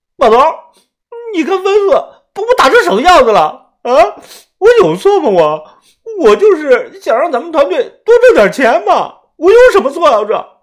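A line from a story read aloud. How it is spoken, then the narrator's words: Aggrieved crying. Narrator (Chinese): 豆芽仔脸上顶着个熊猫眼，他委屈的哭着说道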